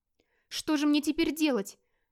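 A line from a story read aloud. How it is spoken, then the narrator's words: Bewildered exclamation. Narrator (Russian): недоуменно воскликнул Эрнольф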